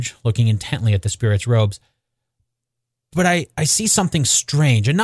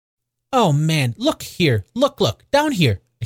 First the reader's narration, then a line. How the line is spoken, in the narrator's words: exclaimed the ghost